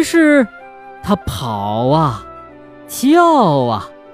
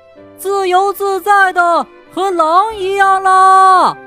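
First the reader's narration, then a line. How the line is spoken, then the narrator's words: Loud shout. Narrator (Chinese): 他大声地叫道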